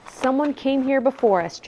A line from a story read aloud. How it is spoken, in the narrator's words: Jack said softly